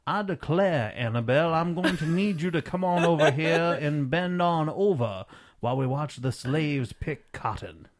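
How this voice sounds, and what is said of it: Genteel southern drawl. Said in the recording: “a southern gentleman, southern drawl, not like a redneck hillbilly”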